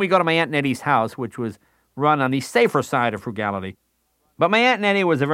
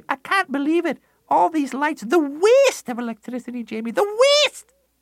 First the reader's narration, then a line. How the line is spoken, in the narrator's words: she'd scream